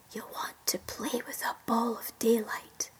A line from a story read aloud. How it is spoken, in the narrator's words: Inside the little boy's ear, Crow whispered